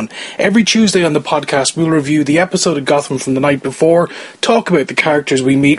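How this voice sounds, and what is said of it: Irish accent. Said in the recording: “yes, that accent is an Irish one”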